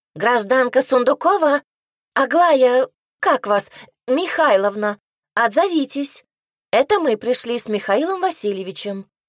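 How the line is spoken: Shrill loud female voice. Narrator (Russian): визгливый женский голос громко произнес

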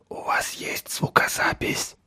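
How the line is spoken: Whisper. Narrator (Russian): шепнул Такагиси Франческе

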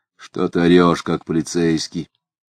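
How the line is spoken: Half-voiced, low. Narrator (Russian): сказал Дронов в полголоса

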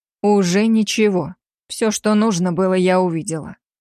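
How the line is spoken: Icy cold voice. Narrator (Russian): заледеневшим голосом произнесла я

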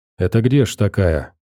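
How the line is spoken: Quiet question. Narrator (Russian): Какой-то охранник у стены спросил тихо товарища

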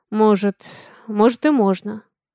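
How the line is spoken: Sad, smiling. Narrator (Russian): печально улыбнулся Авалон

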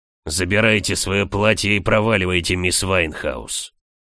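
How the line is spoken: Growled. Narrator (Russian): рыкнул маг

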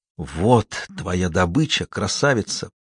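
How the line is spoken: Murmur. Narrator (Russian): пробормотал Ральф

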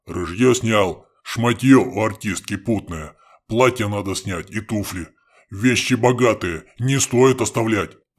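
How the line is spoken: In a deep bass. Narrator (Russian): пробасил хохол

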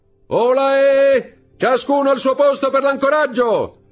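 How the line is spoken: Shouted, young man. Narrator (Italian): il giovane gridò

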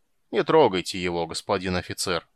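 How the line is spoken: Calm. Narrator (Russian): спокойно сказал Аддарио Бах

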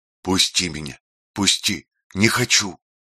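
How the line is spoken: Whispered. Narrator (Russian): шептал Родион

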